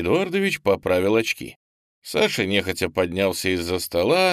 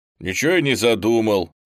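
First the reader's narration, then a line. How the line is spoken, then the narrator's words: Displeased mumble. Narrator (Russian): недовольно пробурчал Саша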